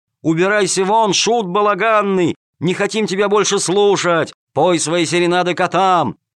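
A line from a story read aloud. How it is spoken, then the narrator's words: Crowd yelling loudly. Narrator (Russian): Зрители орали во все горло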